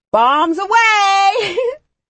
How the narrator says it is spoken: someone shouted above me

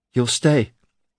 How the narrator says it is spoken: she breathed

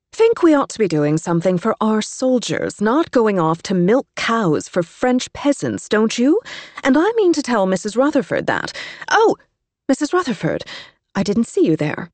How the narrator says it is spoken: said loudly

